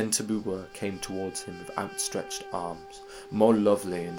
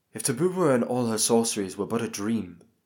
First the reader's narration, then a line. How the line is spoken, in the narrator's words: exclaimed